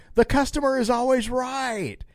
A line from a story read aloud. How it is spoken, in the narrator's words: Hicks yelled